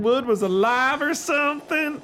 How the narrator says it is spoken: Lindy said, laughing, enjoying her victory

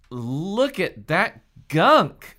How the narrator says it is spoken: Hallie exclaimed

